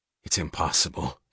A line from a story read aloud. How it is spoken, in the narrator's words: he said, his voice low